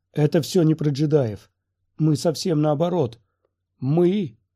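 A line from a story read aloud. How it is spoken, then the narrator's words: Exclaiming. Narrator (Russian): воскликнул Нильд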